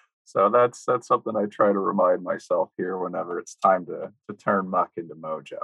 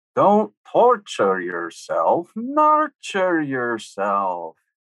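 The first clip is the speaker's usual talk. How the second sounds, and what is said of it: Attempted Swedish accent. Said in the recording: “who I believe is Swedish, and I'm going to butcher her lovely accent”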